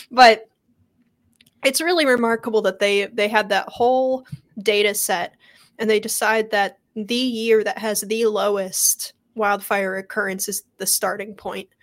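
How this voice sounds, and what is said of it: Sick, rough-sounding voice. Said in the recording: “I'm sorry if my voice is terrible today ... I caught, I don't know, like swamp disease or something ... Swamp flu”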